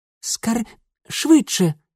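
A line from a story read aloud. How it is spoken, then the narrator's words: Girl whispering. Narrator (Russian): прошептала девчонка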